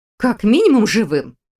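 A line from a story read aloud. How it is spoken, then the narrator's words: Snorting. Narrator (Russian): хмыкнула она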